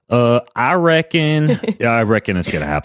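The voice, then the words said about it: Put-on Southern accent. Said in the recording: “That's a Southern accent, not Australian accent.”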